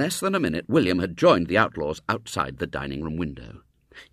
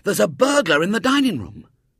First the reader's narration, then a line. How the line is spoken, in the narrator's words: called Ginger excitedly